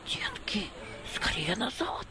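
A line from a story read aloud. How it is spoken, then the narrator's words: Whispered. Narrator (Russian): зашептал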